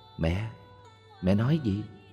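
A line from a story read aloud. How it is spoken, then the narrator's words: Soft question. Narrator (Vietnamese): Con bà ghé sát hỏi khẽ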